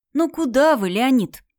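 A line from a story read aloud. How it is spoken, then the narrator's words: Tired. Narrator (Russian): устало сказал Женька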